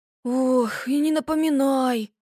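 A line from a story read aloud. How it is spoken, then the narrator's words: Sighing. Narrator (Russian): вздохнул Макси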